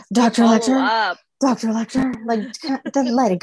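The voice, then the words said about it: Imitates a female character's voice. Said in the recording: “That was a good impression. Actually, you sounded like her. You've been working on it.”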